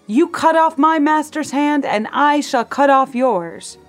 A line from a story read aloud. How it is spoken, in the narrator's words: He shouted